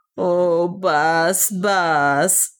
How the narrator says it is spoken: said Otter with a deep sob

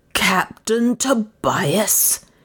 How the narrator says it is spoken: shouted

